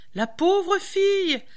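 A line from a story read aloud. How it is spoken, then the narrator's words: Old woman exclaiming. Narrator (French): s'écria la vieille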